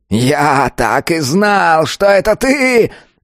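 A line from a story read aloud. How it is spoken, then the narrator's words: Elder's roar. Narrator (Russian): взревел старейшина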